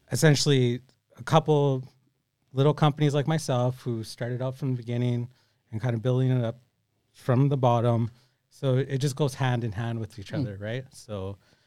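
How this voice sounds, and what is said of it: Australian accent. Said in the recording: “that amazing Australian accent”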